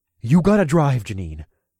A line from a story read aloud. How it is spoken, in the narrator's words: I said in the calmest tone I could muster given the situation